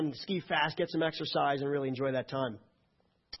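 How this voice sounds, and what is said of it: Usual voice. Nothing is said of it.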